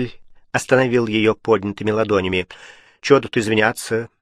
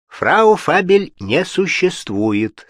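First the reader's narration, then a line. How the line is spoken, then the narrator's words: Plain. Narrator (Russian): сказал он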